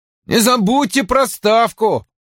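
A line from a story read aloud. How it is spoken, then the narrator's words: Loud. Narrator (Russian): громко сказал он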